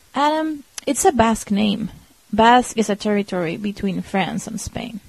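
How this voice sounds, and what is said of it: Slight French accent. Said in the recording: “I thought I heard a little bit of French accent.”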